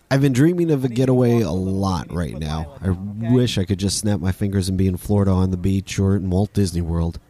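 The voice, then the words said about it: Voice affected by a cold. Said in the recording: “I got a cold last week and this week my allergies are back ... you can just hear it in my voice.”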